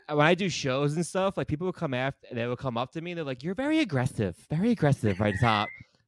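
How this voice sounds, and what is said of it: New York accent. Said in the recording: “You got the accent too. You got like the good ... New York accent.”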